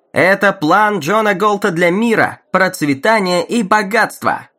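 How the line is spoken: Announcer shouting. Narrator (Russian): выкрикнул диктор

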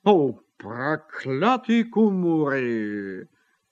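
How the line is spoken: Grumbled. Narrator (Russian): проворчал он

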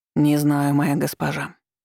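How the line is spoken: Cold reply. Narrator (Russian): отозвался Тамир холодно

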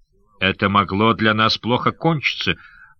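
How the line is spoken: Grumbled, still angry. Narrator (Russian): проворчал неостывший еще Сандакан

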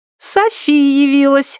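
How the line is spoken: Little girl giggling. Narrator (Russian): хихикнула мелкая

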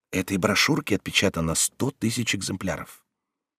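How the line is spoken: Quiet voice. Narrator (Russian): прибавил тихим голосом

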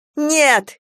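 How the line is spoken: Shouted. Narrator (Russian): крикнула Галя ветерку

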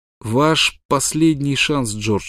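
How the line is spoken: Plain. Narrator (Russian): сказал Смок

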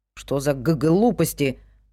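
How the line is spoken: Grumbling. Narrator (Russian): проворчал Вик

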